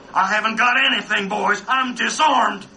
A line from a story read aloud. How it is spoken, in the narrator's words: Tom McLary, yelled back